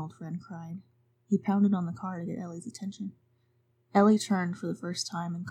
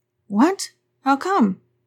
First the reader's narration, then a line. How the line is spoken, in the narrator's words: Arnold Friend cried